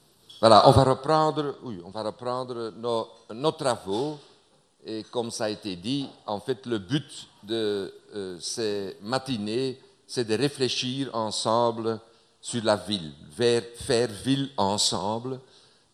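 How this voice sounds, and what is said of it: Northern French regional accent. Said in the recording (French): “mon accent... Je viens du Nord”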